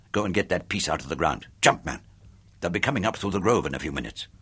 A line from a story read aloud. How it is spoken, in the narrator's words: snapped